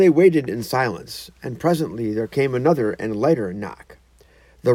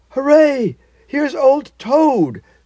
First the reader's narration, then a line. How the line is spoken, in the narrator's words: cried the mole, his face beaming